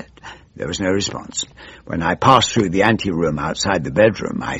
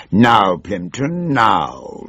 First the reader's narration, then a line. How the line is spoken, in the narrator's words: she growled